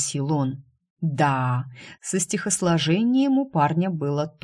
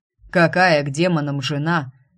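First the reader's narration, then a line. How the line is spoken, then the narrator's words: Barking. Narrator (Russian): рявкнул темный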